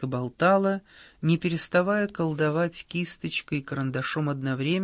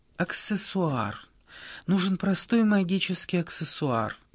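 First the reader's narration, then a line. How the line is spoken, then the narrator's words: Muttering. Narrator (Russian): бормотала Анка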